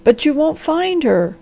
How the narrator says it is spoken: gasped the doctor

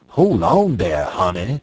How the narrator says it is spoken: the old man exclaimed with a great affectation of alarm

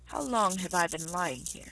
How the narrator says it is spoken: said he

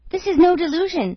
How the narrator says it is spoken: cried Huntsman the Unlucky

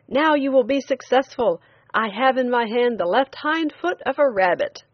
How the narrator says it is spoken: he shouted

